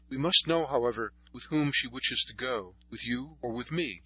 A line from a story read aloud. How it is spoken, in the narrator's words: after a moment's hesitation, he said uneasily